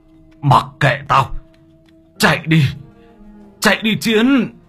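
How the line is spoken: Harsh strained voice. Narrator (Vietnamese): Ông Đảm gằn giọng

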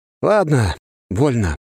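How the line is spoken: Exhaling. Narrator (Russian): выдохнул я

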